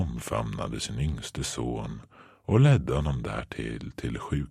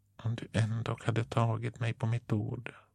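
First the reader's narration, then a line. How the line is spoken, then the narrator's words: Muttering younger brother. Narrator (Swedish): muttrade lillebror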